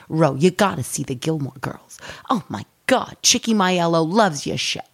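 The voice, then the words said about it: Accent like Ro from The Sopranos. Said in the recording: “you sound like Ro from The Sopranos. ... I can't believe how funny that accent is.”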